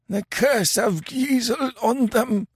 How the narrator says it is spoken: gasped Kemsa

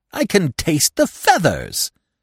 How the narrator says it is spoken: said Professor Small indignantly

